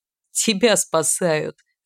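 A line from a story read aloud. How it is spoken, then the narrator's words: Laughing. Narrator (Russian): рассмеялся парень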